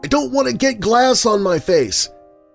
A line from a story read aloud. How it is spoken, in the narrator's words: announced loudly